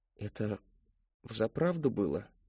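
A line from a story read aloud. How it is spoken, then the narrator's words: Forced, strained. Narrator (Russian): выдавил он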